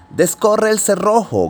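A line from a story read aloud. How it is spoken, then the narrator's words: Grandmother shouting. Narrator (Spanish): gritó la abuelita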